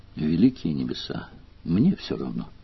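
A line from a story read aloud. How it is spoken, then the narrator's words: Weary reply. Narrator (Russian): устало отозвалась Делия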